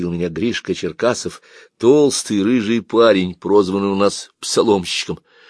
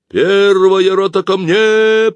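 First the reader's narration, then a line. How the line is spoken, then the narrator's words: Drawn-out shout. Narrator (Russian): протяжно закричал Сухарев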